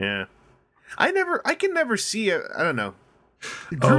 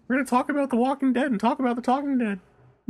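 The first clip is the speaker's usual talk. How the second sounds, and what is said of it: Imitates another person's voice. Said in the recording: “my Chris Hardwick impersonation? It's pretty accurate. ... It's extremely accurate.”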